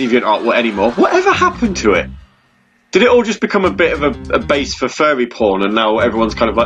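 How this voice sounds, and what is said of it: Usual voice. Nothing is said of it.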